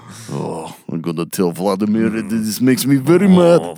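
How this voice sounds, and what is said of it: Put-on Russian accent. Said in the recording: “He's got a Russian accent. ... He's got to have a Russian accent. ... Yeah, he's Russian now.”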